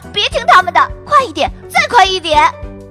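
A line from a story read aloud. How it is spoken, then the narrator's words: Excited girl. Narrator (Chinese): 说话的不是旁人，正是兴奋玩耍的小表姐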